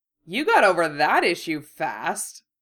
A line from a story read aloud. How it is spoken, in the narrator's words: Fred said cheerfully